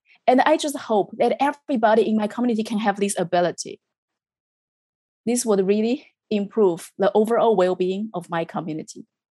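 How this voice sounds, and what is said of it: Very strong accent in English. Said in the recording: “I speak English, although with a very strong accent.”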